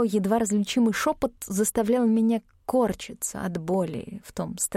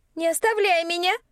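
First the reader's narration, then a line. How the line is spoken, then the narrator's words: Shout, then childlike sob. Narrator (Russian): крикнула Флавия и всхлипнула, совсем как девочка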